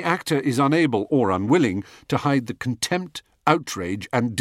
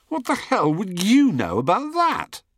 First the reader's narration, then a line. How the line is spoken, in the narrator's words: I grin tightly